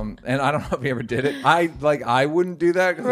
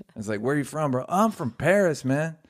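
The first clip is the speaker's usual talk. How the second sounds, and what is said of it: Put-on cholo accent. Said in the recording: “every cholo, no matter where they're from in the world, has the same accent”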